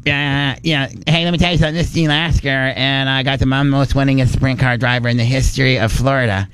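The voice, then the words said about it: Over-the-top impression of another person. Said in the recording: “my best impersonation is Gene Lasker ... it doesn't really sound like Gene ... I just make it so over the top”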